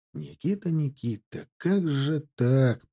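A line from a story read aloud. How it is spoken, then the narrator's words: Barely audible. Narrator (Russian): промолвил чуть слышно Тимофей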